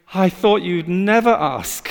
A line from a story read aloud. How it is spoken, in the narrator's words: Jesus breathing this huge sigh of relief, saying